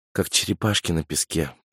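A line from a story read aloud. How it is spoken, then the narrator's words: Whisper. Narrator (Russian): прошептала Няша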